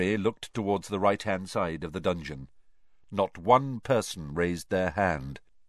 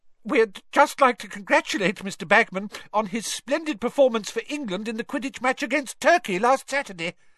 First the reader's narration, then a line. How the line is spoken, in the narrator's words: the witch said breathlessly